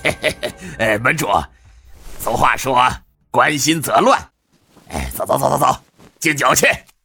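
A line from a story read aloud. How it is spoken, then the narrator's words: Laughing. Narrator (Chinese): 杜乃谦笑道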